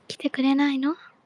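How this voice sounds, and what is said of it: Whispering. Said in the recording (Japanese): “ささやけばいける。...みんなでささやいてみる一回。”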